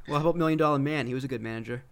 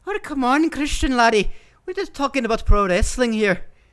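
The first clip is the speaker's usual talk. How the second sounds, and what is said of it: Put-on Irish accent. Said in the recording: “do an Irish accent then ... He'd slap you in the mouth for trying to talk like that.”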